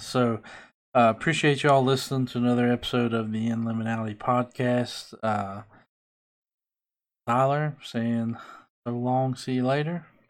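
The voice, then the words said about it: Southern US rural accent. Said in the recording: “this lovely redneck accent”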